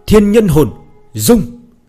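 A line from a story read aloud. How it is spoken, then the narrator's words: Determined roar. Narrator (Vietnamese): Ánh mắt Bạch Tiểu Thuần mang theo quyết ý, gầm lên một tiếng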